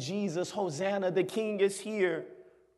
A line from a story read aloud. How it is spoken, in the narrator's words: yelling